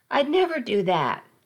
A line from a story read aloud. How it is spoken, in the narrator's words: snapped